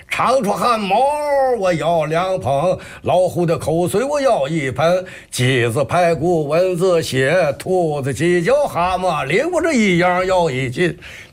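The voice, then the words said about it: Put-on Shandong accent. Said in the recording (Chinese): “他这有这山东味儿了”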